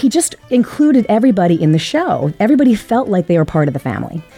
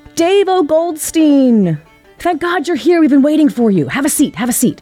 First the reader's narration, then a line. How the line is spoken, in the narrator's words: he would yell out from the stage